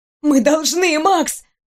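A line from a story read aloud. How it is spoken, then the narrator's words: Hoarse rasp. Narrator (Russian): прохрипела я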